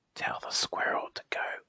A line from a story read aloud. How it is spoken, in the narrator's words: whispered the leaves